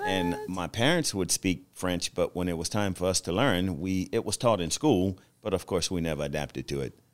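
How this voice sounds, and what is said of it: Slight Louisiana accent. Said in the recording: “I can detect a little Louisianan in your accent”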